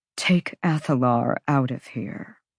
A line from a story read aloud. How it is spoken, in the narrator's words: the archangel said calmly, the dismissal clear